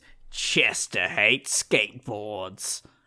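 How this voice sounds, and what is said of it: Put-on Australian accent. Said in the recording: “I found my phrase to, like, get an Australian accent going.”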